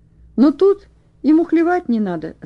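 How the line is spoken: Cheerful. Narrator (Russian): сказал он весело

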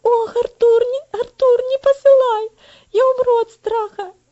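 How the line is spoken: Whimpering. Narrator (Russian): Захныкал Вальтер

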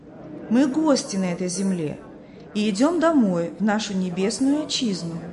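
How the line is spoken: Plain, several voices. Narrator (Russian): ответили они

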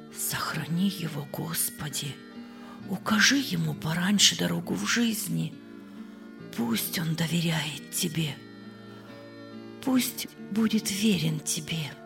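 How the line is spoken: Quiet prayerful speech. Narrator (Russian): тихо сказала

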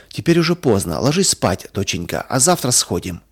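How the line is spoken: Plain father. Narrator (Russian): сказал папа

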